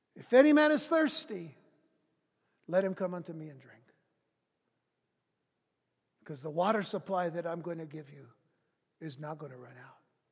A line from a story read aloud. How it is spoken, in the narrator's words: Jesus cries out